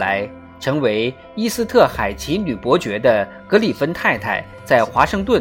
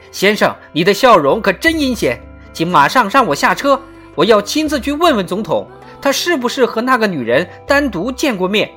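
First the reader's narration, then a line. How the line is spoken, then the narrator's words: Angry shouting. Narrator (Chinese): 怒火反而更强烈了，他嚷嚷起来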